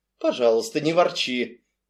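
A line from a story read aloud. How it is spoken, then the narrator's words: Soft but haughty. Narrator (Russian): Мягко, но высокомерно изрекла миссис Ривз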